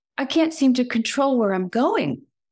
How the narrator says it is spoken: cried Snowflake

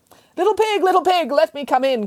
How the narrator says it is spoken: cried the butcher

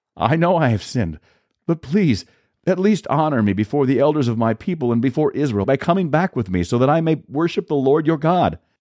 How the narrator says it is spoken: Saul pleaded again

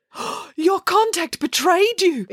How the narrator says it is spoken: exclaimed Dad

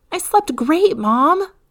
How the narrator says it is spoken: Alexis said excitedly

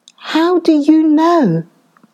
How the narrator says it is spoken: exclaimed

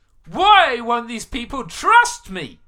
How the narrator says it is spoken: he yelled at Moses

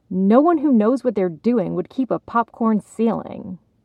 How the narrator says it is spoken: Her sister had snapped

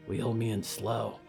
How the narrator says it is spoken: Danielle whispered back

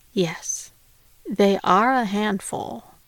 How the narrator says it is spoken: sighed, as if to say

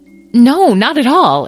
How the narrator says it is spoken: exclaimed Megan

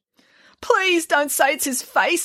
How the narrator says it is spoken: wailed Mrs

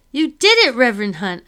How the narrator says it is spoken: I shout at the top of my lungs

